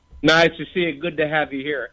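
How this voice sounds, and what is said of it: Exaggerated David Letterman impression. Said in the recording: “David Letterman was one of my first impressions... You nail the laugh... Letterman's laugh... I take a little bit of an exaggerated take”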